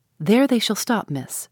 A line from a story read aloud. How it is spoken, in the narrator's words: she said